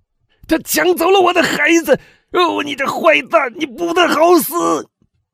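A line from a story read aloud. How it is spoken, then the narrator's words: Shouting. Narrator (Chinese): 威尔夫喊道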